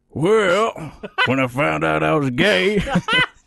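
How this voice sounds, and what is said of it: Raspy Southern Alabama accent. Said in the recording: “here's a southern line for you ... You're compensating for the accident, accent by just adding a raspy voice. From Alabama.”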